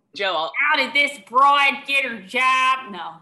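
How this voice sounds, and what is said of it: Put-on South Philly accent. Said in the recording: “the Philly accent yes, South Philly.”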